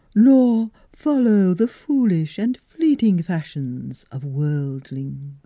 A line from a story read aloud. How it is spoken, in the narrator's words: she said in a hollow voice